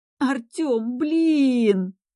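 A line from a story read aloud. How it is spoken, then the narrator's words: Very loud shriek. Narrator (Russian): Так громко я не визжала давно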